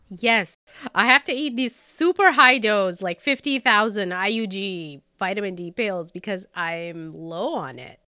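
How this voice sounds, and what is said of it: Congested, stuffy-nosed voice. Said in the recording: “always sick, always stuffed up, and I'm going to sound like this forever... my voice sounds different... You sound very sultry and mysterious.”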